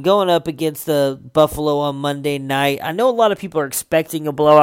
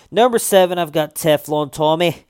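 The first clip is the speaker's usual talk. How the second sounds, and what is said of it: Attempted Boston accent sounding Scottish. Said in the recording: “I keep going Scottish there at the end, and I'm focusing so hard, and I want it to be Boston. I'm gonna have to work on my Boston accent, because I swear I'm sounding way too Scottish or Irish there”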